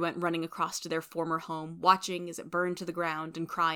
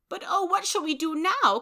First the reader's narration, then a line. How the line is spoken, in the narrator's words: cried Aunt March